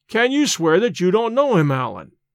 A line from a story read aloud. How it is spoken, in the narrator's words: I cried, half angered, half in a mind to laugh at his evasions